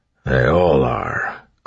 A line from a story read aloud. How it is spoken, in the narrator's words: Clubs muttered